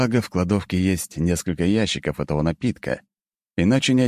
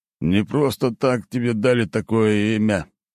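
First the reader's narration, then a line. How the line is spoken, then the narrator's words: Through clenched teeth. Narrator (Russian): процедил тот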